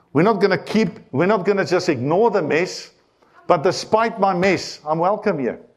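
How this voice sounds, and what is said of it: Non-American accent in English. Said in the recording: “Despite me and my accent, I hope all the Americans actually understand what I'm saying. I am actually speaking English.”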